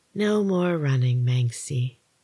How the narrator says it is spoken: the voice attempted to purr

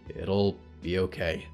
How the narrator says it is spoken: Olivier whispered quietly

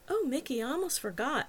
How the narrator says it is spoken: exclaimed

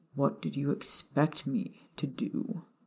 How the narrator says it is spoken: He asked calmly

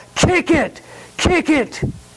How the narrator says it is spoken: the coach would yell

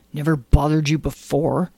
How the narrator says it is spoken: muttered Lyle

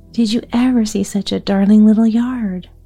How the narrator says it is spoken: she cried

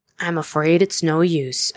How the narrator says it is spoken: Edgar said

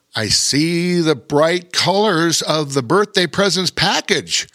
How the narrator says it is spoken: Pirate Pete said excitedly

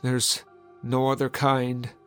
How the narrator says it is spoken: said in a low, sad moan

